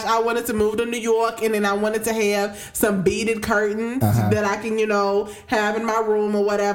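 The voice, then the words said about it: Put-on New York accent. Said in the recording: “talking in the New York accent”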